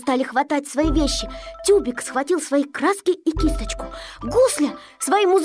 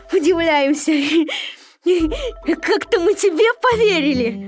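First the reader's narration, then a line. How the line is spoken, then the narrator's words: Mocking group laughter. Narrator (Russian): Все смеялись над Незнайкой и говорили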